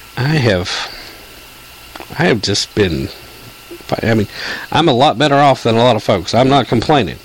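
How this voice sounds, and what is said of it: Congested voice, fading in and out. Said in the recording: “allergies and this sinus infection ... why my voice is going in and out”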